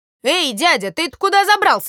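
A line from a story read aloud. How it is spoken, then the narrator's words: Very loud shout. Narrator (Russian): закричал комар Комарович на весь лес, да так громко, что даже самому сделалось страшно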